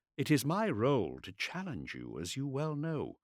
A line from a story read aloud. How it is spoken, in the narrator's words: said Ralston calmly